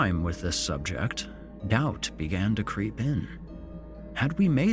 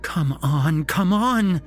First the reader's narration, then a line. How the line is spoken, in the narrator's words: she pleaded